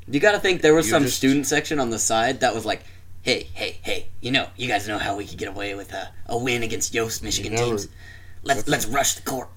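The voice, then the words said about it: Sinister villain character voice. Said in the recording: “an interesting accent, an interesting voice you have right now for that ... This is my nefarious person”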